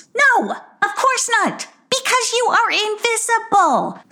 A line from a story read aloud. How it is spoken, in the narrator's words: snapped Sarcasta